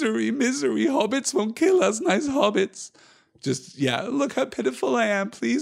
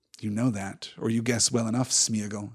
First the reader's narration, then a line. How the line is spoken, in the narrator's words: he said quietly and sternly